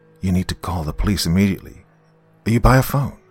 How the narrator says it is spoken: Luckily, my voice came out steady

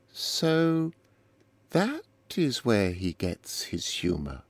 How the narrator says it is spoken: said Eleanor slowly

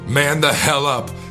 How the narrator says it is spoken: Jackie shouted at me

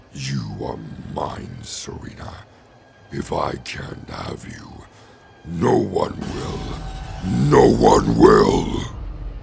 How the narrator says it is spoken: The snowman said in a demonic voice

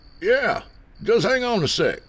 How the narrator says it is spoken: he shouted back

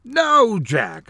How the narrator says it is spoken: yelled, running in

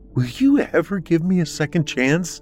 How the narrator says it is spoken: she pleaded

